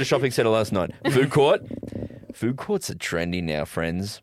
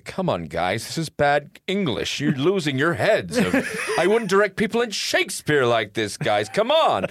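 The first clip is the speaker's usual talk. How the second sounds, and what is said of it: Angry old Orson Welles impression. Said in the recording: “this angry old man getting upset ... that's my impersonation.”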